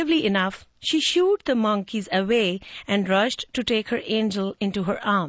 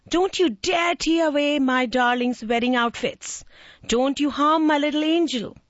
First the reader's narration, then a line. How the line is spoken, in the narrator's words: The mom kept shouting